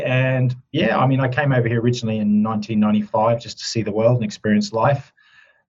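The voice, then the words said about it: Australian accent with a twang. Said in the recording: “you can probably tell from my twang, I have Australian roots”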